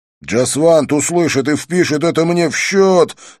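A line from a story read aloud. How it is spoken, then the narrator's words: Yelling over music. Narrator (Russian): заорал, стараясь перекричать музыку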